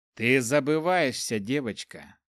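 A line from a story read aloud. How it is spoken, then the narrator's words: Cold imperious address. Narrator (Russian): Холодно обратился поддельный император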